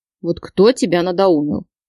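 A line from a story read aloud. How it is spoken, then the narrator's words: Grumbling complaint, tongue click. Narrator (Russian): Продолжил ворчать Кирилл и, прицикнув языком, пожаловался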